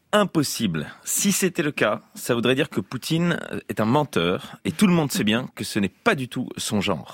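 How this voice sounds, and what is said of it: Imitates another person's voice. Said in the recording (French): “Mon imitation, vous avez reconnu ? ... François Fillon. ... je le tiens hyper bien.”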